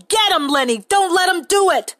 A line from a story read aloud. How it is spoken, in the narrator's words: George yelling